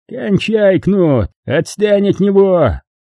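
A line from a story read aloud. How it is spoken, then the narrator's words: Yelling. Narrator (Russian): заорал граф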